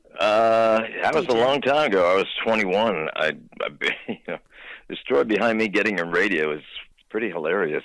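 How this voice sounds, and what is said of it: Polished radio announcer voice. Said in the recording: “You got such a great, great radio voice.”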